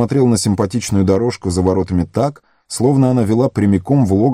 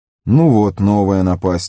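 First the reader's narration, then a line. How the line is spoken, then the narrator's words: Dejected voice. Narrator (Russian): упавшим голосом отозвался Фродо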